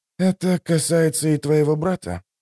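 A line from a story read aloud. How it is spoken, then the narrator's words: Quiet inquiry. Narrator (Russian): тихо поинтересовался Ток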